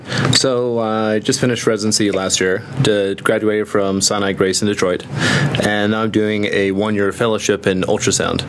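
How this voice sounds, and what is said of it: New York accent. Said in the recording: “a hint of an accent ... a lovely accent you have. New Jersey? ... I could hear the New York accent. I mean, you just can't hide it.”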